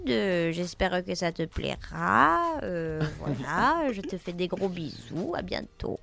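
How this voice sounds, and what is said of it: Put-on southern French accent. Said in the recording (French): “faire ton accent du sud ... je fais un peu l'accent du sud”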